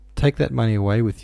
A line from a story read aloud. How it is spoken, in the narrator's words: Smerdyakov sighed